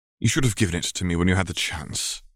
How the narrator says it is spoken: Albus sighed

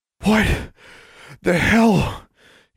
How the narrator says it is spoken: gasped

